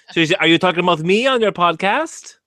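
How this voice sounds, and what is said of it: Put-on French or Arabic-sounding accent. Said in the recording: “Is that like a French or Arabic accent? ... it's not quite that high ... She has a bit lower octave”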